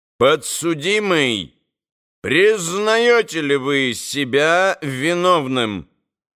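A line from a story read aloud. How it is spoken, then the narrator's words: Loud, imposing question. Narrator (Russian): председатель громко и внушительно спросил Митю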